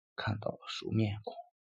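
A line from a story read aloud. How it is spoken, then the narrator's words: Very quiet voice. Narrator (Chinese): 声音很小地说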